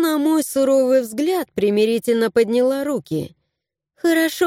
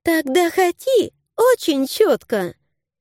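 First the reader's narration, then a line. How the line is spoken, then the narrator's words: Giggling brat. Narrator (Russian): хихикнула засранка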